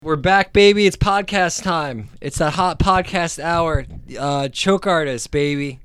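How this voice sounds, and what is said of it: Exaggerated radio announcer voice. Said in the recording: “I'm trying my radio voice.”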